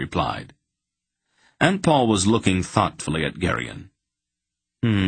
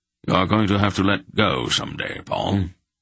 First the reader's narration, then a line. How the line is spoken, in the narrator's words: Belgareth said gravely